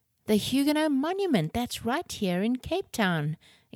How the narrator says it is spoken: exclaimed Ren

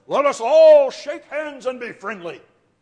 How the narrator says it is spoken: this big booming voice

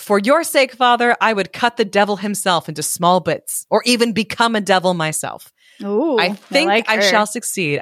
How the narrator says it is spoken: she did not mind being laughed at, and she answered

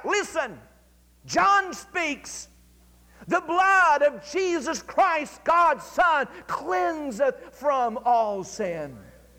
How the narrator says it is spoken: he cried out

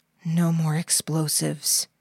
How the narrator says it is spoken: whispered to himself under his breath

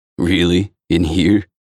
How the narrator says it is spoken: She sighs

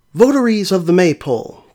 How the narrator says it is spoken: cried the flower-decked priest

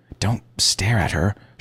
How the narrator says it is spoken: she hissed, as if I'd picked my nose

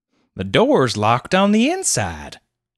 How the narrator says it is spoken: exclaimed Clovis

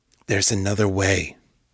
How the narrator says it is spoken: he whispered

